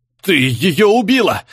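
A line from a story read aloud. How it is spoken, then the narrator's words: Shouting. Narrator (Russian): закричал Дебер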